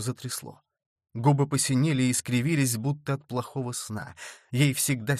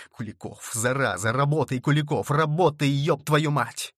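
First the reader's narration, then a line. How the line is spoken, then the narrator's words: Hissing. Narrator (Russian): Илья шипел врачу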